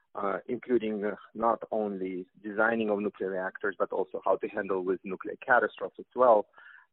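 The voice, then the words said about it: Russian accent. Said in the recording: “as you can tell from my Russian accent”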